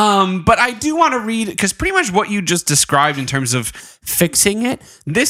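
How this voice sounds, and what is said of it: Usual voice. Nothing is said of it.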